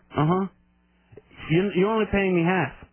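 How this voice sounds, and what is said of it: Imitates a Spanish-accented voice. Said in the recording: “Why is he talking like that? ... What accent is that? ... I think his family's from Spain.”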